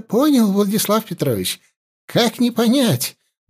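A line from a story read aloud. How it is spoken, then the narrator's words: Babbling. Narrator (Russian): залепетал Савельев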